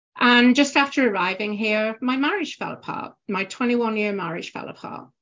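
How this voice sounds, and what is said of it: British accent. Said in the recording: “obviously from the accent, you can tell I'm from the UK”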